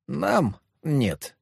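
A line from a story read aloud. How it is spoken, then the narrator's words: Quick snort. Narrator (Russian): тут же фыркнула Мальвина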